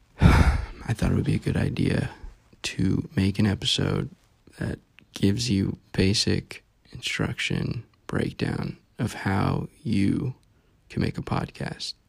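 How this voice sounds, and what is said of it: Flat, monotone, tired-sounding voice. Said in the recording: “I apologize in advance if I'm monotone. I'm tired.”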